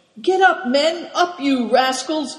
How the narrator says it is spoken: shouted Good Fortune

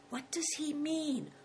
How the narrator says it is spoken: whispered Christian

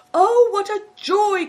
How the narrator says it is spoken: cried the innkeeper

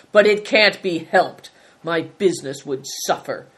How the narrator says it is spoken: snarled Greencoat

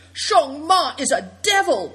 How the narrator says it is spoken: cried Seven Stars in a horrified tone

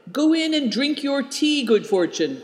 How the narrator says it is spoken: cried Nidong

